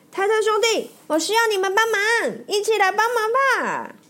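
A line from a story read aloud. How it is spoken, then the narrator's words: Shouting. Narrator (Chinese): 脱线大喊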